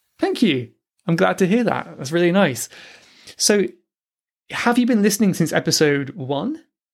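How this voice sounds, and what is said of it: Clear, quiet voice with an accent. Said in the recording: “I really like your accent, and your voice is clear and quiet”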